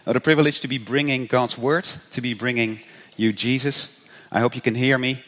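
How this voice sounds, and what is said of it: Dutch accent. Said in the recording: “I'm Dutch, hence the funny accent”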